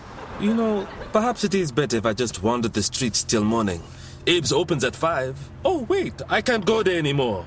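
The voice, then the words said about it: Thick foreign accent. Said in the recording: “that accent doesn't thicken up like gravy when there are women around”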